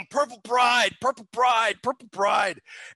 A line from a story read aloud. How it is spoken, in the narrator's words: he comes out yelling